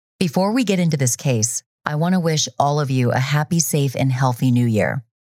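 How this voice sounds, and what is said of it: Voice still recovering, not fully clear. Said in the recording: “I lost my voice ... my voice still isn't 100%”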